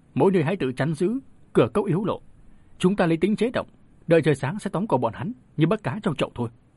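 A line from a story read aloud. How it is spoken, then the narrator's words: Raised voice. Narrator (Vietnamese): Bà ta dương cao giọng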